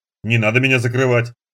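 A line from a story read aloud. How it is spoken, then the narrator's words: Girl's grumble. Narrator (Russian): буркнула девушка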